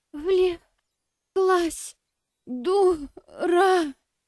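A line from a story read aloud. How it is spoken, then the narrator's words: Exhaled words. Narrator (Russian): Выдохнула она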